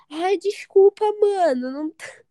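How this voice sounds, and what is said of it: Exaggerated put-on regional accent. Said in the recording (Portuguese): “puxei o meu sotaque lá do, do cu de Judas pra ficar bem arretado o meu sotaque”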